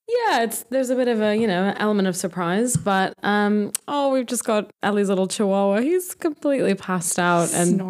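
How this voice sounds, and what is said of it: Gentle American accent. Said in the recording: “you have an American accent... a very gentle American accent”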